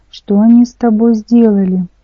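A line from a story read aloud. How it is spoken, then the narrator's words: Grief-stricken exclamation. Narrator (Russian): Горестно воскликнул он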